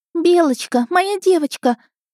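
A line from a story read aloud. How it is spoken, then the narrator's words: Shrieking. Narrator (Russian): Венди, взвизгнув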